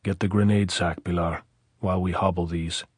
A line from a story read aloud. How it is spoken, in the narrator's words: Pablo say very softly